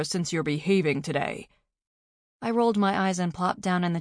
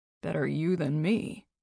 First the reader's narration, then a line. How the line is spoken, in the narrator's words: he mumbled